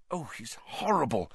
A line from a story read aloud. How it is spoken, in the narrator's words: whispered Hermione